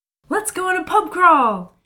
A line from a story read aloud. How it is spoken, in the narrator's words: Kayla says excitedly